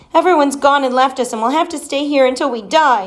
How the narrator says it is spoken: bawled

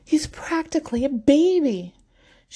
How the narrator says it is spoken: she screams in indignation

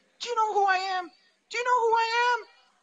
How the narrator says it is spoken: was yelling

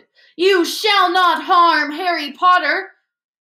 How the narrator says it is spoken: Dobby shouted

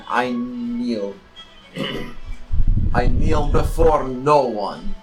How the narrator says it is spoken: snarling

